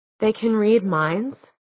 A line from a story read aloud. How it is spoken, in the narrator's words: Clary said in a small voice